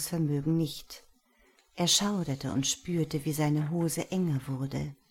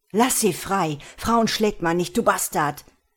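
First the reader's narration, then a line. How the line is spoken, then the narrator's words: Roaring. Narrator (German): brüllte er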